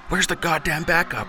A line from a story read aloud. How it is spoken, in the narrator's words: He yelled